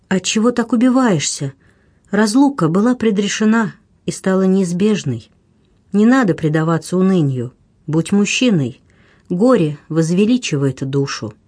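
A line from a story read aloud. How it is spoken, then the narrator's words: Melodic, gentle whisper in ear. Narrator (Russian): мелодичный голос нежно прошептал на ухо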